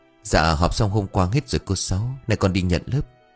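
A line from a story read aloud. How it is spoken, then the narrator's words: Bright cheerful reply. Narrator (Vietnamese): cô cười tươi tắn trả lời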